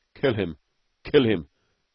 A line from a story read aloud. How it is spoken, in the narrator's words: gasped Beetle